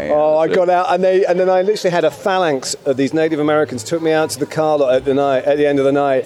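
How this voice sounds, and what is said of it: British accent. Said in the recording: “the British accent is cool, man ... the British accent.”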